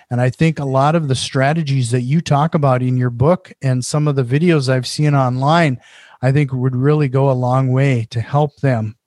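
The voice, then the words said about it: Minnesotan accent. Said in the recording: “My Minnesotan accent sometimes gets that screwed up at the end, those S's.”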